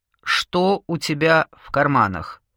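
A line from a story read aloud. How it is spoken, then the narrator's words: Menacing voice behind door. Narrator (Russian): грозно спросил голос за дверью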